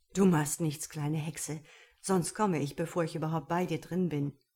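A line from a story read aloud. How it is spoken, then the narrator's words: Exuberant laughter. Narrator (German): lachte übermütig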